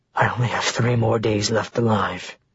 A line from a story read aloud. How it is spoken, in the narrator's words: he breathed